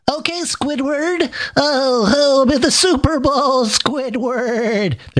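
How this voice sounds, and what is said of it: Cartoon character voice impression. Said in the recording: “my SpongeBob impersonation”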